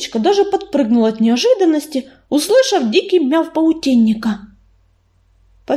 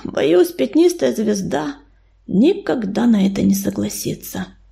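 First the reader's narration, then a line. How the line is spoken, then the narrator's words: Sigh. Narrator (Russian): вздохнул Ураган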